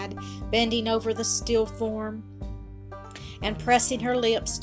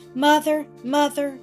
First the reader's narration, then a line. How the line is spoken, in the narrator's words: cried the girl